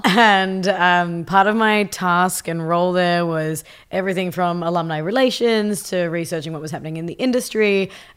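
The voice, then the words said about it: Australian accent. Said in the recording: “I was working for a design university in Australia. I have a funny accent, if you couldn't tell.”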